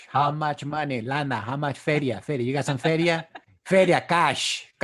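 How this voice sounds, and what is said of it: Put-on cholo accent. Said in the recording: “talk like a cholo ... why do you sound different?”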